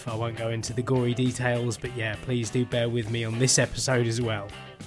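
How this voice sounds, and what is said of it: Tired, ill-sounding voice. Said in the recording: “you might hear a bit of a difference in my voice as well ... my voice sounds a little bit tired ... I'm coughing and sneezing”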